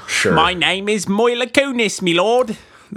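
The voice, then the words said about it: Put-on Cockney British accent. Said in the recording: “I would like to hear Mila Kunis do a British accent ... She would sound a lot more high class than that though. Like I don't think Cockney is usually the go-to of the rich classes”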